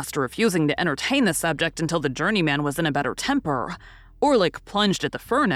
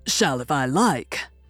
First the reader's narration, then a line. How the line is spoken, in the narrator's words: growled Orlick